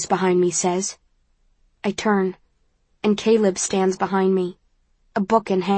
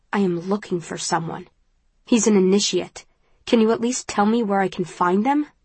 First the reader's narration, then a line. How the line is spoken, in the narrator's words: my voice is terse